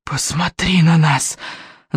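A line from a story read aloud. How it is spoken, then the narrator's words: Hissing chorus. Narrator (Russian): зашипели головы Смертиня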